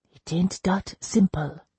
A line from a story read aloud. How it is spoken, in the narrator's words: she whispered